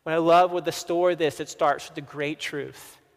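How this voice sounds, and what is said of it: Southern American accent. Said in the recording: “Sorry, my southern accent.”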